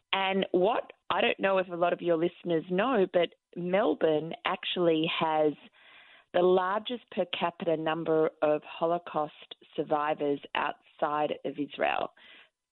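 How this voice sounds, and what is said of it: Australian accent. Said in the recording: “This is not an American or New York accent. This is an Australian accent.”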